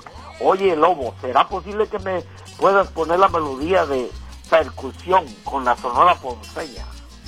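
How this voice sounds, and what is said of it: Male voice, Colombian coastal accent. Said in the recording (Spanish): “oyó voz de hombre... Y costeño dijo... 100% costeño”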